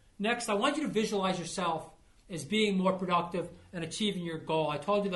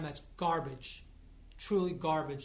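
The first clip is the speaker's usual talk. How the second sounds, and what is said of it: Disgusted tone. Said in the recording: “hear the disgust in my voice”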